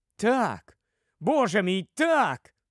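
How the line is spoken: Struck, sudden exclamation. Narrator (Ukrainian): вигукнув Кордл, несподівано вражений цим сліпучим світлом істини

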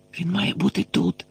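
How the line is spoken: Whispered. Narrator (Ukrainian): прошепотів Гаррі, переконаний, що вони от-от побачать на темній підлозі замученого Сіріуса

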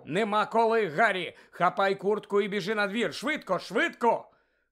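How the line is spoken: Sudden shout. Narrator (Ukrainian): містер Уізлі раптом закричав

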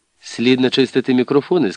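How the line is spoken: Plain. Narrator (Ukrainian): сказав священик псаромникові

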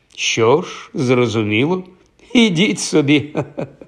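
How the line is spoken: Young man laughing. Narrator (Ukrainian): розсміявся юнак

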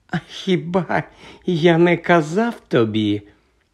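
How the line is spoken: Calm remark. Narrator (Ukrainian): спокійно зауважив Редл

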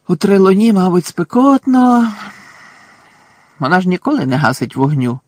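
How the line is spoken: Sighing. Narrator (Ukrainian): зітхнув Рон

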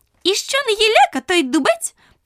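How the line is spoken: Squeaky daisy. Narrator (Ukrainian): пропищала стокротка

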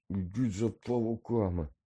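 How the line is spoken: Barely audible rasp. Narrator (Ukrainian): ледь чутно прохрипів

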